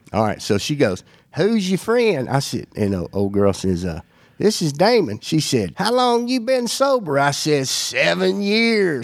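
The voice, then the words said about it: Strong regional accent. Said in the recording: “you know how strong your accent is”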